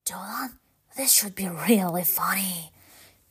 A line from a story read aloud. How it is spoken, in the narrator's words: whisper